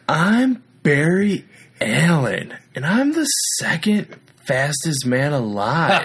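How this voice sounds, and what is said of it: Imitates a character's voice. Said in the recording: “your Barry Allen impression ... my Barry Allen”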